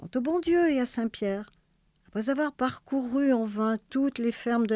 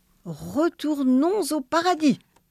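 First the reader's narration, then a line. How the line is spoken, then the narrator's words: Exclaiming. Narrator (French): s'écria le bon Dieu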